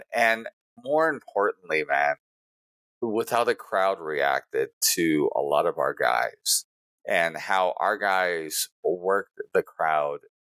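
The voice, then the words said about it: Hoarse, worn-out voice. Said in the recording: “I'm tired. My voice is all but gone”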